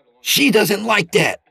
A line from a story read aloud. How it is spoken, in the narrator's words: Peter snapped